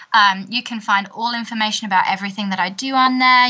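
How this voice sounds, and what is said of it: English accent. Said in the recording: “you have the best attitude and accent I've heard in a very long time ... I should have put on my extra fancy English accent today”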